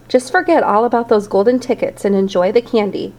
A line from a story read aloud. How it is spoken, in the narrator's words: Grandpa Joe said